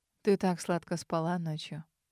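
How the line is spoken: Husky murmur in ear. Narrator (Russian): Пробормотал мне на ухо слегка хриплый голос Армана

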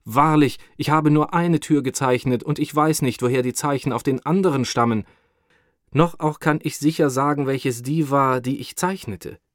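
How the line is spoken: Cursing exclamation. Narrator (German): Mit einem Fluche rief er aus

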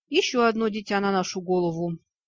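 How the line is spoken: Sighing. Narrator (Russian): Я вздохнула

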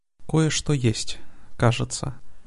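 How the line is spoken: Quiet. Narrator (Russian): негромко сказала Алиана

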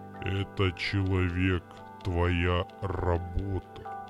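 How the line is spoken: Deep booming voice. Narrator (Russian): пробасил яркий фиолетовый кристалл

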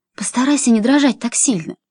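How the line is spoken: Fervent whisper. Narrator (Russian): горячо зашептала она

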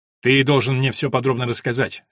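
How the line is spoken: Sharp interruption. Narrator (Russian): резко прервал его Стефан

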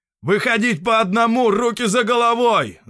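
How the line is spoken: Yelling. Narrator (Russian): заорал он

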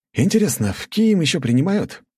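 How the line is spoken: Young voice. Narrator (Russian): произнес он молодым голосом

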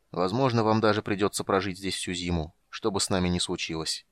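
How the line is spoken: Sad. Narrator (Russian): Он печально покачал головой и добавил

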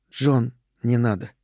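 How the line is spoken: Quiet. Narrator (Russian): тихо сказала

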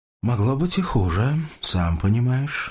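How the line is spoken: Husky, boyish female voice. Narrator (Russian): сказала женщина хрипловатым, почти мальчишеским голосом

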